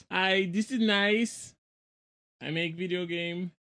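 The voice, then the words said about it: Borat impression. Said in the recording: “great Borat impression”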